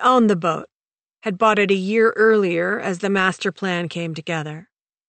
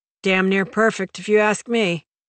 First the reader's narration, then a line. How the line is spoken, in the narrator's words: Turnbull grunted and said